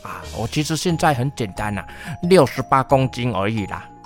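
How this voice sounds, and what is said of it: Quiet secretive whisper. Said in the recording (Chinese): “小声偷偷说哈”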